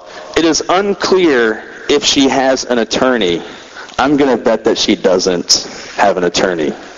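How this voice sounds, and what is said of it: Rough, sick-sounding voice. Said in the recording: “my voice is still kind of crazy, a little bit crazy from being sick”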